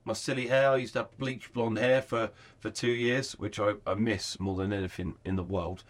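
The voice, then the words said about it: English accent. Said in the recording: “our accent... English accent does stand out”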